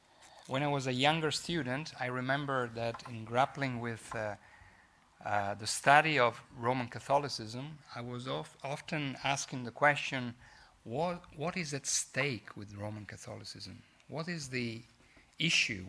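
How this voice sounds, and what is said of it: Italian accent. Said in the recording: “bear with my Italian accent”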